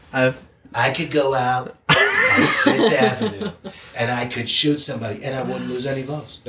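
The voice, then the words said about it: Imitates another person's voice. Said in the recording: “my Donald Trump impression. It's not as good.”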